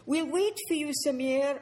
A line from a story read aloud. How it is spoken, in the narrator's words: Annetta called out